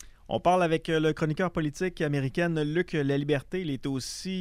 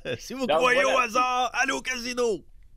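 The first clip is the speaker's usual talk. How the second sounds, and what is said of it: Imitates another person's voice. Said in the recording (French): “Meilleure imitation que la mienne.”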